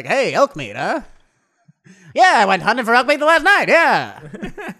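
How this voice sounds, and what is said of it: Old-timey 1940s radio accent. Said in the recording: “talking old-timey? When did that accent go away? ... Radio back then ... doing that voice.”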